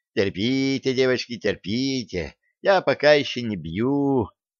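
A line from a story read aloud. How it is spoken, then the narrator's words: Cooing. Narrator (Russian): ворковала Лилиан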